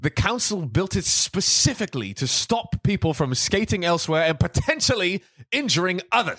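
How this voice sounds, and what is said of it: Posh British accent. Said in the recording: “this British accent is like the literate, one ... super posh ... speaking the Queen's English”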